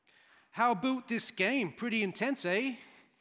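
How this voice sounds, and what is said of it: Strong put-on Canadian accent. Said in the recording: “He's got a strong Canadian accent.”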